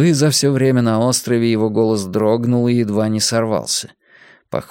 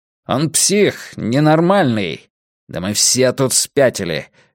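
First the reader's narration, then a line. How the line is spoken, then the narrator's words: Sharp. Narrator (Russian): резко добавил Филипп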